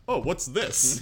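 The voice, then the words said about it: Slightly deeper dad voice. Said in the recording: “doing an impersonation. I was doing an impersonation of myself at, like, 30 ... at, like, 40 looking at my kid's bank statement ... I would just have my voice. Just maybe a little deeper.”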